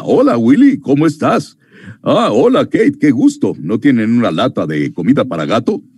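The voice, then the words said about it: Imitated TV character voice. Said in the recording (Spanish): “intenté imitar la voz de Alf en español”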